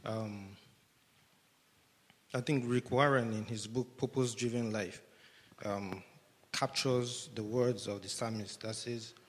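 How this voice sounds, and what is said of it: Breathless voice with a cold. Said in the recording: “I'm running out of breath. My voice is kind of having a cold.”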